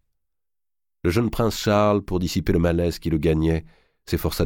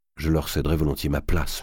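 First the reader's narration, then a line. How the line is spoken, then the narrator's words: Murmuring. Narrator (French): murmura Charles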